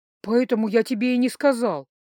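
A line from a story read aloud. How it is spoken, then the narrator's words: Dejected exhale. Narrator (Russian): выдохнул парень, опустив плечи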